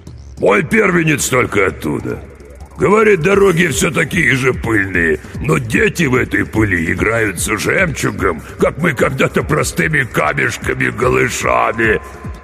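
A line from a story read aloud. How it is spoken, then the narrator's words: Deafening laugh, fat man. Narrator (Russian): Толстяк оглушительно захохотал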